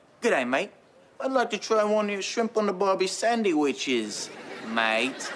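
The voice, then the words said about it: Poor put-on Australian accent. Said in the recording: “I'll speak with an Australian accent ... No, that's not an Australian accent.”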